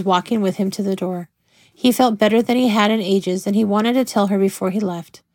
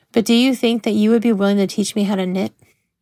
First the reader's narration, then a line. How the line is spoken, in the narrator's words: He laughed